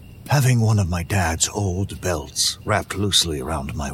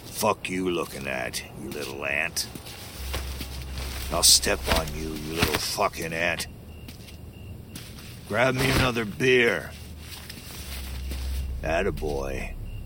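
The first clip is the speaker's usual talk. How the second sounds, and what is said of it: Gruff grunting impression of father. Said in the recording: “I grunted in my best dad voice.”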